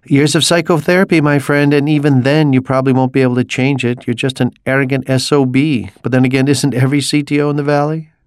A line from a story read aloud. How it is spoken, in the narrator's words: Mikey laughed